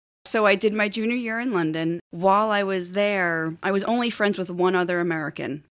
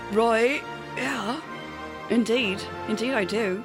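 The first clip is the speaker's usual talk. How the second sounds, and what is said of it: Put-on British accent. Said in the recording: “you have a good London accent ... that was classy ... She's got a pretty good accent there. ... That's Liverpool ... That's Dick Van Dyke.”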